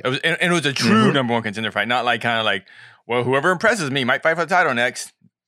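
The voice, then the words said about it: Convincing Dana White impression. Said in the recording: “I'm getting really good at my Dana impression ... I thought you were playing a clip.”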